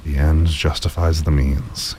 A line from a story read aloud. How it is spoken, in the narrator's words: he muttered